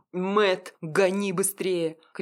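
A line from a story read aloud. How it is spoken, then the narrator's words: Shouted. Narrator (Russian): крикнул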